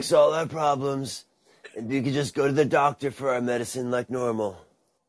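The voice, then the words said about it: Imitates another person's voice. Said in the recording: “That's a good Trump impersonation.”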